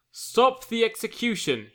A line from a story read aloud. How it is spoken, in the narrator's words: he says in a loud voice